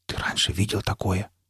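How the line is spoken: Whispered question. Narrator (Russian): спросил Никита почему-то шепотом

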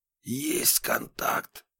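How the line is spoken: Excited whisper. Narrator (Russian): прошептал Разуваев

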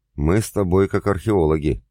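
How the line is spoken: Short laugh. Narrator (Russian): хохотнул я

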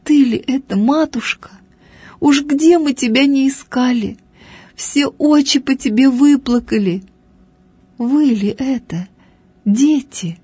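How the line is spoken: Old woman speaking through tears. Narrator (Russian): говорила старушка сквозь слезы

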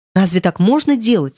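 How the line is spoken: Stern exclamation. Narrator (Russian): строго вскричала Элли

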